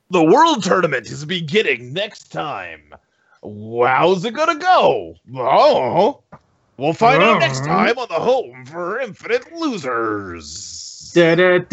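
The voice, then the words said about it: Dramatic announcer voice. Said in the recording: “give us that good announcer voice.”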